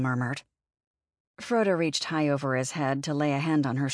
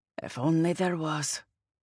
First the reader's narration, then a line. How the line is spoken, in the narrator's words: she mumbled